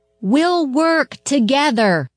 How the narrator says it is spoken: the girl shouted in her ear

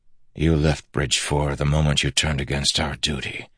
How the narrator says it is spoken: Kaladin whispered

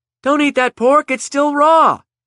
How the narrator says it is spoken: shouted Alice

